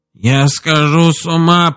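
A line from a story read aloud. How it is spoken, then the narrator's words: Groaning. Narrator (Russian): простонал он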